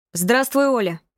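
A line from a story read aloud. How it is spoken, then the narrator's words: Shouted. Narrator (Russian): крикнул Алексей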